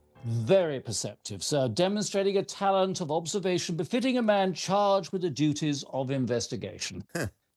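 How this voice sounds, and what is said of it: Distinctive foreign accent. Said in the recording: “Your accent is something of a giveaway.”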